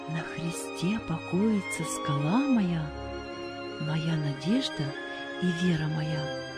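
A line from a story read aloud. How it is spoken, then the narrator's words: Soft singing. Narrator (Russian): тихонько напевал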